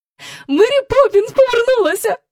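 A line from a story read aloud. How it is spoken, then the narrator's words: Joyful announcement. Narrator (Ukrainian): радісно повідомила вона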